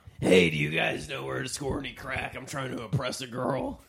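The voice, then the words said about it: Fake raspy crack-smoker accent. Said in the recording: “has that fake I smoke crack accent”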